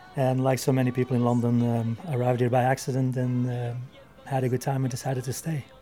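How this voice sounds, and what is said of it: Belgian accent, not native English. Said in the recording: “you're not Spanish, I can tell from your accent ... I'm not from England, I'm actually from Belgium”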